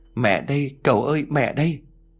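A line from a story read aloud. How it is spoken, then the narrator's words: Sobbing, strange trembling voice. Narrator (Vietnamese): Bà Thu bỗng dưng bà òa khóc, giọng nói run rẩy khác lạ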